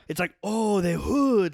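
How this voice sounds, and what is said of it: Put-on Asian accent. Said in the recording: “that was my Asian accent doing ... Was good.”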